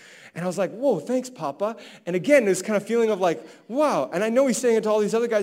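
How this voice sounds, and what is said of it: Usual voice. Nothing is said of it.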